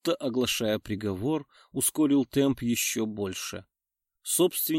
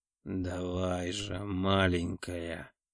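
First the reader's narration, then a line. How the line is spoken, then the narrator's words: Muffled moan, feverish breathing. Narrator (Russian): Глухо застонал, переводя лихорадочное дыхание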